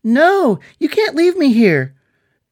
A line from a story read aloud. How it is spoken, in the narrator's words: Struggling in Jimmy's arms, the jewels from Aird screamed